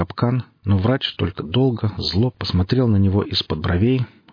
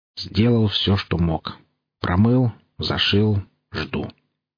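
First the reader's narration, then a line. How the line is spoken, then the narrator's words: Gloomy grumble. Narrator (Russian): мрачно буркнул костоправ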